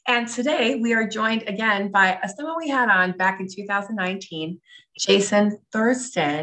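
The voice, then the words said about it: Congested voice from a cold. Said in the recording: “I have a cold, sort of. My voice sounds a little bit different”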